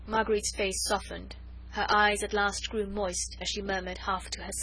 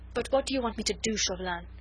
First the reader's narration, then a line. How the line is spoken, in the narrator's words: she said, with a world of despair in her tear-choked voice